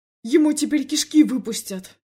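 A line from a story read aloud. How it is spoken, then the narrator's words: Yelling. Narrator (Russian): заорал Андрей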